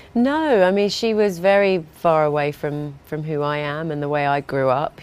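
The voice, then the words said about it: Non-posh English accent. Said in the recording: “she had a posh, I'm getting a little from your accent that it's not Lady Mary ... I grew up in a very much a working class background ... Essex”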